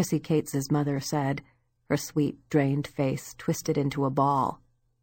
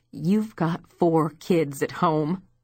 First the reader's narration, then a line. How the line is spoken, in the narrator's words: she continued, her voice tight, her eyes wet